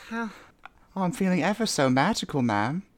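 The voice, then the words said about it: Put-on British character voice. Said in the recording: “The British orphan”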